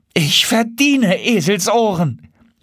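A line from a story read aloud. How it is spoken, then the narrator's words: Exclaimed. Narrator (German): rief er aus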